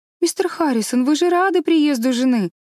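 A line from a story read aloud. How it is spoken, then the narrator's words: Reproachful exclamation. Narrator (Russian): воскликнула Энн укоризненно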